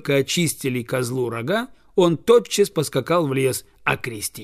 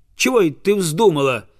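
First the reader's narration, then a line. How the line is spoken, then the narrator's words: Peasant shouting. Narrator (Russian): закричал крестьянин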